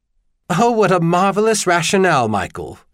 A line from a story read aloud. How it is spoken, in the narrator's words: Charlian laughed